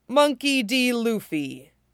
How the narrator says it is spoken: the bear says in an oddly human tone, for a bear

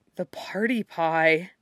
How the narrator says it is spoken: Clint breathed

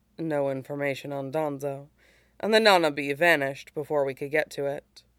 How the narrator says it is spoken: she says quietly

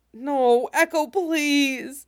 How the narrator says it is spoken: Fives whines

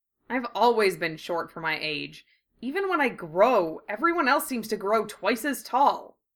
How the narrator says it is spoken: he grumbled

